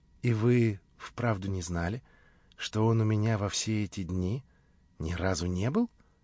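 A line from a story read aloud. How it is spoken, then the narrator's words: Quiet calm question. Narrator (Russian): спросила Наташа тихим и спокойным голосом, как будто говоря о самом обыкновенном для нее происшествии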